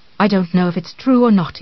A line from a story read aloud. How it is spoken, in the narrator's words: he said